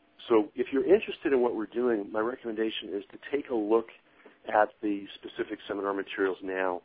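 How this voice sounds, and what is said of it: Hoarse, strained voice. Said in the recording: “I'm finally losing my voice.”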